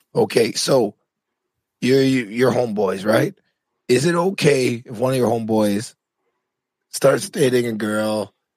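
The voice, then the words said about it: Hoarse, strained voice. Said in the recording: “I'm trying not to sound like you ... I've been losing my voice.”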